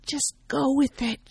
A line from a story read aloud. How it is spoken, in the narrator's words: whispers